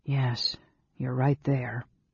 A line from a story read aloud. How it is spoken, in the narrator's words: Tanis said quietly